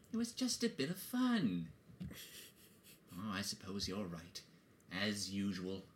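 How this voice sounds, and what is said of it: Good Bilbo Baggins character voice. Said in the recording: “That's a good Bilbo impression.”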